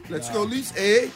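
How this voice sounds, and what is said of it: Mock Canadian accent. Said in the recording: “the Canadian accent”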